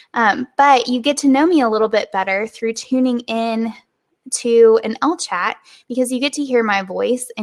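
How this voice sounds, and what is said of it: Southern American accent. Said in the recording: “they're always surprised by my Southern accent”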